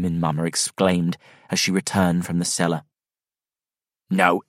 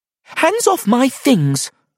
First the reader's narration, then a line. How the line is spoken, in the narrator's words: Snort Maiden said angrily